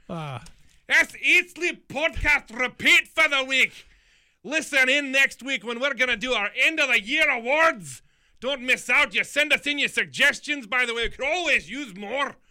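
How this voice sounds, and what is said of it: Put-on Scottish accent. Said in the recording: “I'm just going Scottish for no reason at this point ... Well, I thought that was English, too. ... No, that was Scottish.”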